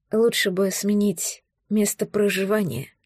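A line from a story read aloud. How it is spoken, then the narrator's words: Quiet reply. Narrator (Russian): тихо ответила я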